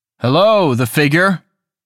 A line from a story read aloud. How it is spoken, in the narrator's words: called out